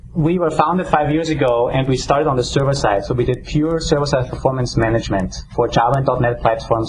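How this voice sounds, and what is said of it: Austrian German accent, some New England. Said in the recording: “my strange accent comes with my German-Austrian background ... a mixture of my accent of New Englandish and Austrian”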